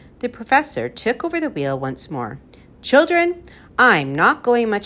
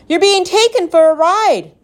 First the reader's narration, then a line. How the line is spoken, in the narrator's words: she screamed for the third time